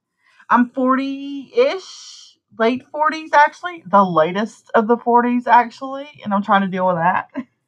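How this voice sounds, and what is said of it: Southern US accent. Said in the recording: “sassy, southern ... I live in the deep south ... I bet you can't tell from my accent.”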